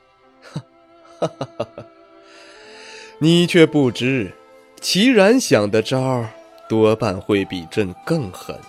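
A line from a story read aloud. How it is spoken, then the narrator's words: Low voice, devilish grin. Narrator (Chinese): 惠凌风脸上挂起恶魔般邪魅却灿烂的笑容，沉声道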